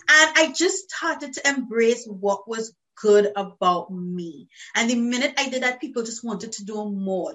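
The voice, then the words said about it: Trinidadian accent. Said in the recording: “people hear my voice, they'll be like, oh my God, what accent is that? It's lovely ... the music of Trinidad and Tobago”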